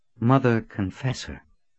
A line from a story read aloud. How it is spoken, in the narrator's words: she said in a cautious tone